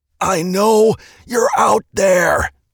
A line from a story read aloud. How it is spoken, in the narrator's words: he shouted through the pain in his throat